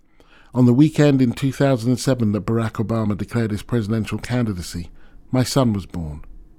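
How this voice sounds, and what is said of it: English accent. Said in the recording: “I've kept my English accent”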